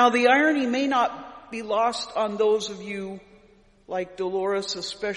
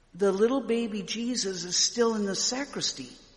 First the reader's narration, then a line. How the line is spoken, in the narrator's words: whispered